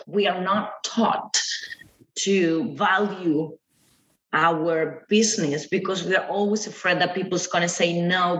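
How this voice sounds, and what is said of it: Speaks English with an accent. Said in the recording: “I'm sorry about my accent”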